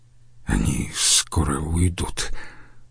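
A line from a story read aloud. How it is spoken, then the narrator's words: Mutter. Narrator (Russian): пробормотал он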